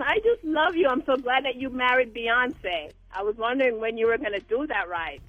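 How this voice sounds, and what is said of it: Jamaican accent. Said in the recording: “You know I'm Jamaican, so you hear my accent.”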